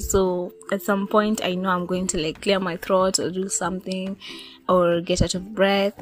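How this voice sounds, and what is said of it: Slightly rusty, hoarse voice. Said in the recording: “my voice is a little bit rusty ... it's a little bit rusty”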